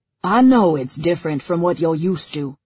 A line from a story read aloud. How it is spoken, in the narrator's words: he says gruffly